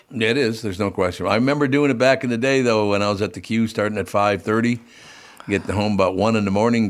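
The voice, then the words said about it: Raspy voice. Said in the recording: “That's why I have a raspy voice to this day.”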